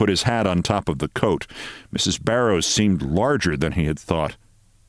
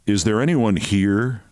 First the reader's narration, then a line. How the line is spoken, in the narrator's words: She laughed louder than ever